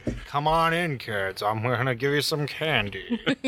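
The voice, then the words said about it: Creepy serial-killer-like voice. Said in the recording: “That voice sounded like a serial killer ... It was the fucking creepiest commercial ever.”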